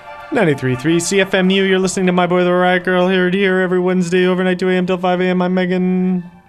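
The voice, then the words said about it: Very fast auctioneer-like patter. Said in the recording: “you sound like an auctioneer.”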